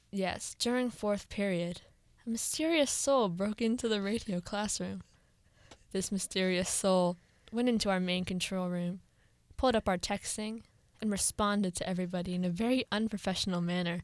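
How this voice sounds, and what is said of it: Spooky storytelling voice. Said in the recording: “Do you like my scary voice?”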